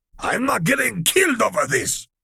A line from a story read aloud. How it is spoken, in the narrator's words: Crosshair yelled back